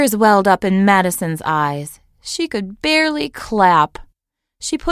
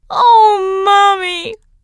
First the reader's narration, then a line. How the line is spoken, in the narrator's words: sobbed Madison